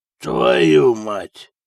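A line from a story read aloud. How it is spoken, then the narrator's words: Hoarse. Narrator (Russian): прохрипел он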